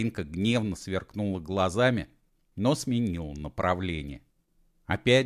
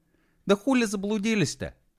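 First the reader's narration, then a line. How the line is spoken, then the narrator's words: Snapping retort. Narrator (Russian): огрызнулась она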